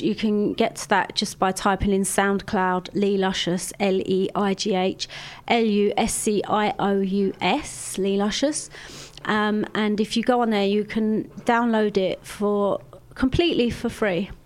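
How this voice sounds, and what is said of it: Put-on posh voice. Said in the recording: “I'm doing my posh voice again, aren't I? ... You are, yeah.”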